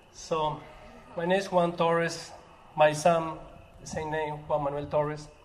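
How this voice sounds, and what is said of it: Spanish-accented English. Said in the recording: “Sorry by my Spanish accent.”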